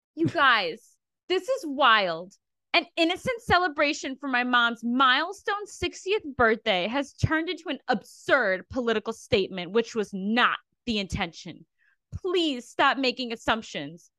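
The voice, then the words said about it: Imitates another person's voice, dramatic reading. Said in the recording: “my best impression, dramatic reading”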